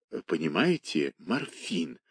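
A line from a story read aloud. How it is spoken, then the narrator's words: Whisper. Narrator (Russian): объясняла шепотом Нюта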